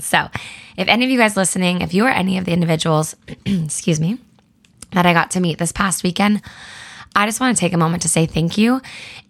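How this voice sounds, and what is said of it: Hoarse, worn-out voice. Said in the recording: “that is why my voice is gone.”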